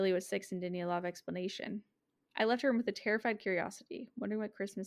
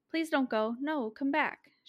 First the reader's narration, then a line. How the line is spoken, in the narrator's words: she cried